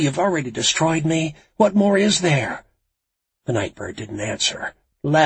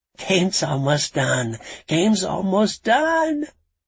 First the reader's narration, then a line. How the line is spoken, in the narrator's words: he said with an odd, childish giggle